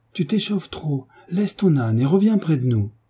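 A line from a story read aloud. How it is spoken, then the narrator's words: Shout. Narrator (French): cria-t-elle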